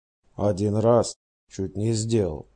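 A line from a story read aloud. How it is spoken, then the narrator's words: Plain. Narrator (Russian): ответил он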